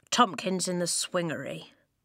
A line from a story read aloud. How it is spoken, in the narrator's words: Lofty muttered